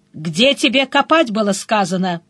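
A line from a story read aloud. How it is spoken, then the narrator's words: Barked. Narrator (Russian): рявкнула она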